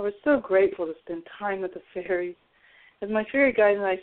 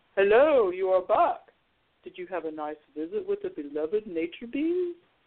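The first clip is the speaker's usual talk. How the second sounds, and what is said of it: Deep voice of a character. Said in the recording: “I heard a deep voice. Oh, it was the grandfather tree.”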